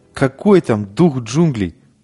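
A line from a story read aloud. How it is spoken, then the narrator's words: Exaggeratedly reckless exclamation. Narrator (Russian): преувеличенно бесшабашно воскликнул Конча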